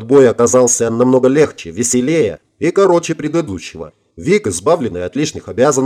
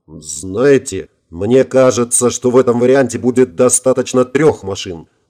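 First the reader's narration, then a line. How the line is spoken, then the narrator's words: Impatient snort. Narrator (Russian): плохо сдерживая нетерпение, хмыкнул Виктор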